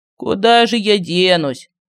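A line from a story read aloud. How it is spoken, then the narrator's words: Sighed. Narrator (Russian): вздохнул медальон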